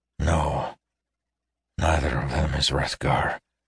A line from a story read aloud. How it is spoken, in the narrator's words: Terris said hoarsely